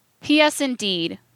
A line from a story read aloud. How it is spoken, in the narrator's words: he laughed bitterly